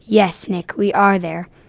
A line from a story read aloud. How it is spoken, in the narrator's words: She gasped